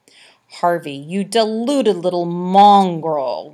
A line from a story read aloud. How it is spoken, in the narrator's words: growled Annabelle